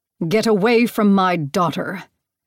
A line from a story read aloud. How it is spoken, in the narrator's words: Demeter's voice thundered throughout the room